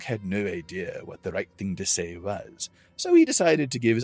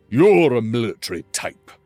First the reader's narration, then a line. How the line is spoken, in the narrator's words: Crodis growled